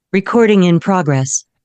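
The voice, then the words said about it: Impression of Zoom recording announcement voice. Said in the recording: “give us your impression of that right now ... That is spot on.”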